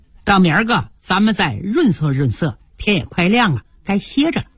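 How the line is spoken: Laughing. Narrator (Chinese): 妙玉笑道

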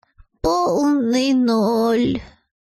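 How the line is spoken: Fox sighing. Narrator (Russian): вздохнула лисица

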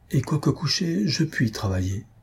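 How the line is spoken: Murmured. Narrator (French): murmura Madame Larionov

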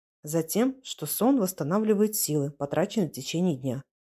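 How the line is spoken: Habitually preachy tone. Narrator (Russian): привычно поучительным тоном сказал Сергей

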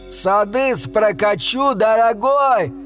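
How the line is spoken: Yelling. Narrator (Russian): заорал

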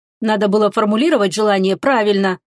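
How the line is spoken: Grumbled. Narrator (Russian): проворчала Теруми

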